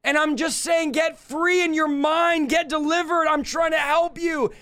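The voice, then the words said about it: Shouting, intense delivery. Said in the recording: “I'm shouting. ... I would be yelling. ... why is he yelling?”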